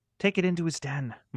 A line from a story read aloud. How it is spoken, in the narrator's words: Maureen whispered